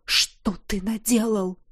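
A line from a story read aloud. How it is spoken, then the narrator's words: Alarmed whisper. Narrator (Russian): прошептал Рина Альвар, увидев мчащую на нас с двух сторон лавину безумцев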